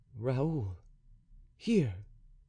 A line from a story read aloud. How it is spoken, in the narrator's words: murmured he